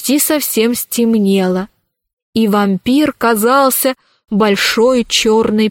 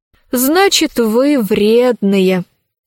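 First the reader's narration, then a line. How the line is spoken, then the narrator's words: Sighing. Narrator (Russian): вздохнула Алиса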